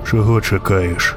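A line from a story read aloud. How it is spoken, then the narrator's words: Quiet question. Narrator (Ukrainian): запитав тихо вершник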